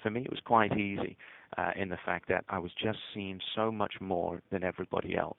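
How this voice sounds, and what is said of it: Noticeably non-American accent. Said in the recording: “I have a really funny accent in America”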